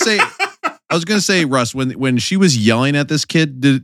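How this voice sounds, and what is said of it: Usual voice. Nothing is said of it.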